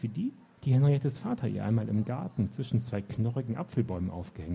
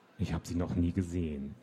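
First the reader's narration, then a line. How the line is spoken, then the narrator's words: Murmur. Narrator (German): murmelte sie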